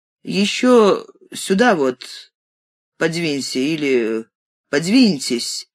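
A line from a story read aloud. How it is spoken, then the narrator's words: Executioner's hoarse voice. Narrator (Russian): проговорил хриплым голосом палач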